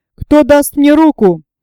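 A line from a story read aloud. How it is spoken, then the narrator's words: Roared. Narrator (Russian): проревел Сильвер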